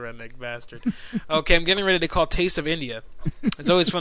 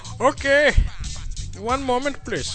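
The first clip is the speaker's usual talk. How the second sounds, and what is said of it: Put-on Indian accent. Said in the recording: “do your Indian accent, man. ... Yes, we do the Indian accent.”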